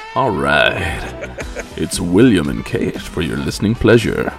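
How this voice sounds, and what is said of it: Smooth, slick radio announcer voice. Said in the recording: “Kind of smooth. Got that slick radio voice going on.”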